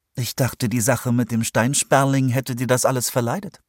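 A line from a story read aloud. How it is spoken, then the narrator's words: Plain. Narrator (German): sagte sie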